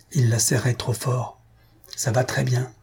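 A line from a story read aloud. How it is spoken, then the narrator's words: Whispered in ears. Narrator (French): murmura Mademoiselle Pied-de-Vache aux oreilles des parents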